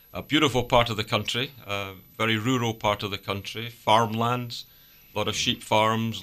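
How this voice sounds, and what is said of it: Scottish accent. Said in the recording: “as you might detect from my accent, it's not round these parts. And home is Scotland.”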